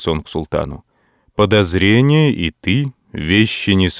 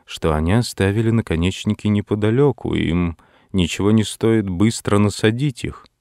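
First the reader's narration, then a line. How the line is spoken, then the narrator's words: Muttered in English. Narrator (Russian): пробормотал Дево по-английски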